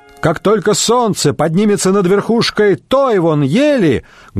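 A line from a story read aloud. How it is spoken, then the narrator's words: Loud. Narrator (Russian): громко проговорил всадник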